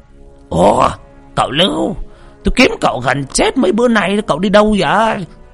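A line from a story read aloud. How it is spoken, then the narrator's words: Exclaiming loudly. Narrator (Vietnamese): la lên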